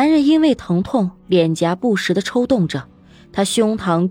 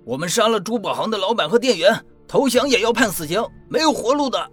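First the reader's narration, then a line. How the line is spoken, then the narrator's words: Fierce roar. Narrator (Chinese): 持枪青年 他像一只困兽，表情凶狠的吼道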